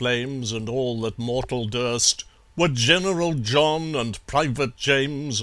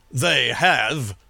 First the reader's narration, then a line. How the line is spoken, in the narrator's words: sneered General John